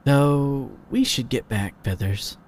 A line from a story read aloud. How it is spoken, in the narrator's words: Shady murmured thoughtfully after a moment